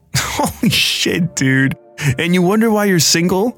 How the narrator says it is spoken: laughed

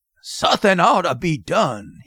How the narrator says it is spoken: he growled

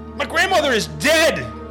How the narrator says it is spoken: yelled

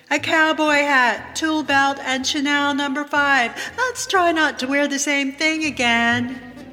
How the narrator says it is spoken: yells back

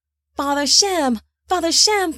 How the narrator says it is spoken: Peleg cried

